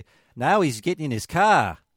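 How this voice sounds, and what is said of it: Exaggerated put-on Australian accent. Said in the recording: “a very colorful Australian man will say ... I can do the Australian accent ... doing Australian face”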